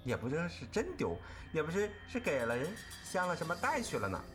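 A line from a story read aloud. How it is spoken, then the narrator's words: Cold sneer. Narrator (Chinese): 黛玉旁边冷笑道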